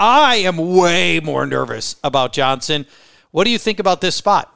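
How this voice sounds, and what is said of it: Usual voice. Nothing is said of it.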